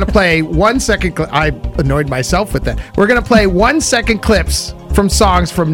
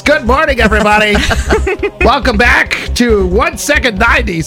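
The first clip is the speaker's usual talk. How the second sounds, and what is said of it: Game show host voice. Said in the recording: “game show voice”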